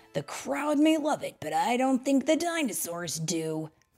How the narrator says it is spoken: Owen said, growing more concerned

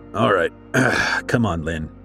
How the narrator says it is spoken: he grunted

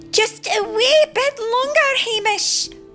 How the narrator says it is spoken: yelled Merida

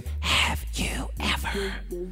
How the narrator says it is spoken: stage whispering

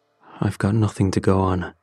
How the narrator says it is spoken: he said solemnly

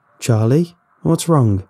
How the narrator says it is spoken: called out

